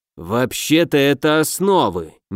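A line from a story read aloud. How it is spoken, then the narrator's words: Displeased grumbling. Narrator (Russian): недовольно ворчал Данеберри, которому не нравилось, что я открываю для себя элементарные с его точки зрения вещи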